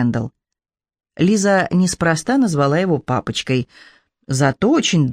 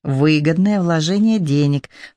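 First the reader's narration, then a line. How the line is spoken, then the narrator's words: Ingratiating, insinuating. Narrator (Russian): вкрадчиво сказала она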